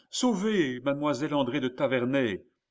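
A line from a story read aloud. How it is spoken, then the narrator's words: Shouted. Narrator (French): cria-t-il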